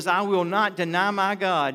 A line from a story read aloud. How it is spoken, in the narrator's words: Nebuchadnezzar said